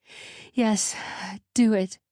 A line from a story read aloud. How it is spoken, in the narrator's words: Zori panted